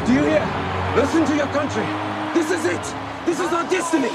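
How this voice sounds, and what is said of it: Pretty good put-on Afrikaans accent. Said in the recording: “doing actually a pretty good Afrikaans accent.”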